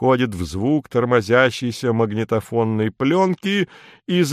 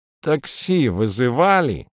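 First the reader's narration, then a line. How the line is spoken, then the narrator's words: Nasal voice over phone. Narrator (Russian): гнусаво осведомляется трубка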